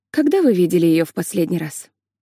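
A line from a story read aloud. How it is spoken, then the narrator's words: Plain. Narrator (Russian): спросила Лили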